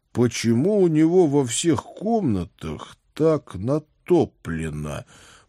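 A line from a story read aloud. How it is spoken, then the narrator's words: Mutter. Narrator (Russian): пробормотал я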